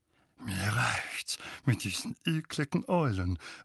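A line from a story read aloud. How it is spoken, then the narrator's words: Disturbed mutter. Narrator (German): murmelte Onkel Vernon verstört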